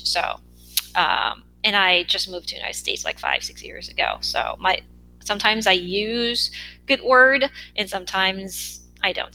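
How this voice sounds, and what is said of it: Non-native English accent. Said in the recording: “English is not my mother language. It's my second language ... my accent comes out. I don't know if you can hear my accent right now through podcast”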